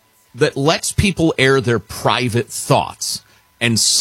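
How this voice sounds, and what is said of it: Usual voice. Nothing is said of it.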